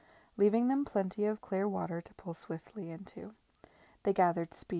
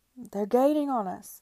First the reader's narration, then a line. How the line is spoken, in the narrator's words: cried Babington